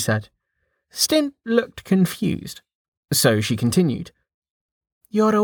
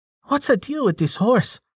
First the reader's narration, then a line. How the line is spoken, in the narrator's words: Amelia laughed